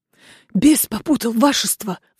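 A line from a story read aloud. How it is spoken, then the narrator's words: Pleading priest. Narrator (Russian): взмолился священник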